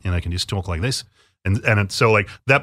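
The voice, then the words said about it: Put-on Australian accent. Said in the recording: “maybe it can be like an Australian accent”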